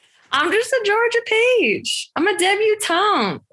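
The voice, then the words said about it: Put-on Southern accent. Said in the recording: “I go to a Southern accent ... That'll knock you back into a Southern accent.”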